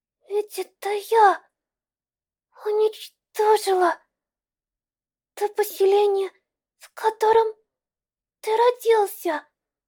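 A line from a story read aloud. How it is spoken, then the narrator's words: Trembling confession. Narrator (Russian): Дрожащим голосом призналась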